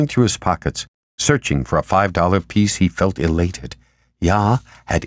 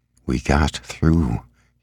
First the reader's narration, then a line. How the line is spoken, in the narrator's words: said in a low voice